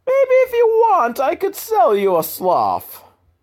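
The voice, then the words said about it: Stereotypical put-on Italian accent. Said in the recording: “That's kind of an Italian accent. ... Stereotypical Italian accent is kind of really the only accent I can do. So all my accents eventually just go back to stereotypical Italian.”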